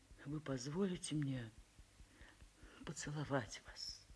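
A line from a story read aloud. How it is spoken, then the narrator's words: Trembling voice question. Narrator (Russian): весь дрожа трепещущим голосом спросил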